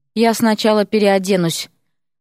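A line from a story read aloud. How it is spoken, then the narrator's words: Wheezed. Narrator (Russian): прохрипел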